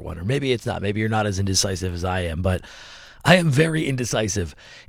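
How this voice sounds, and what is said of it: Slightly hoarse, fried voice. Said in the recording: “my voice is a little fried from yelling at the TV yesterday”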